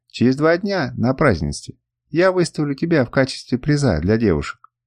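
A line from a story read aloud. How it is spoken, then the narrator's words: Plain. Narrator (Russian): сказала она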